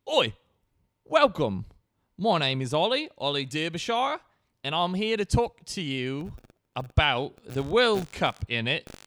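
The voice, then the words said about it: English accent shifting between regions. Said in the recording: “my English accent jumps around from city to city. You really can never tell where I'm from sometimes. Seems like London, sometimes Liverpool, sometimes Kent, sometimes Hartlepool, sometimes Newcastle, sometimes New Jersey, which is a uh, sometimes Australia”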